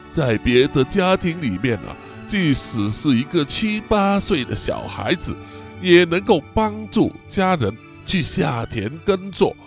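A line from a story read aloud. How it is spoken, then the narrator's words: Old mother, lamenting. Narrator (Chinese): 这位老母亲就慨叹的说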